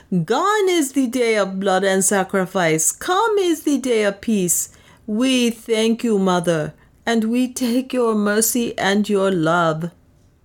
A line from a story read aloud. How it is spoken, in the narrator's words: moved by a common impulse, they rose with a sound like the rush of the wind and shouted